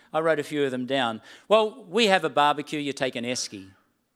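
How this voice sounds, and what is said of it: Australian accent. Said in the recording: “brushed up on my Australian accent ... the distinctiveness of my accent”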